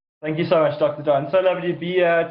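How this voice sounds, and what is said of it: Sophisticated-sounding accent. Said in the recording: “I love your accent ... you have such an awesome accent that even if you're nervous, you sound very sophisticated”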